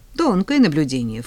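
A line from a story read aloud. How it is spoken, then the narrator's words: Snorting. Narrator (Russian): фыркнула я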